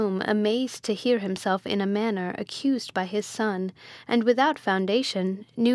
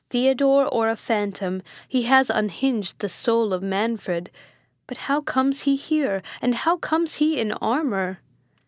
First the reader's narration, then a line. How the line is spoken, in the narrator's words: said Manfred mournfully